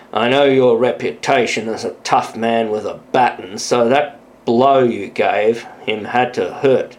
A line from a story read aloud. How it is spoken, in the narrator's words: said with a chuckle